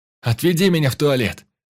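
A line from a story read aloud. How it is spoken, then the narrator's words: Shouted again. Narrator (Russian): еще раз крикнул Иван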